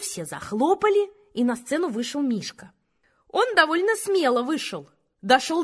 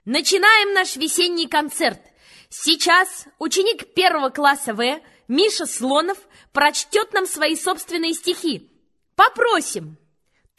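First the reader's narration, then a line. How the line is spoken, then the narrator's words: Loud announcer voice. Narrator (Russian): Она сказала громким голосом, как по радио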